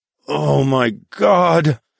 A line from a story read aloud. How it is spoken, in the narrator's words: I grunted